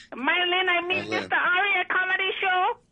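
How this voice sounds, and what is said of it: Exaggerated Chinese-accented English. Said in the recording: “Your accent is phenomenal, by the way.”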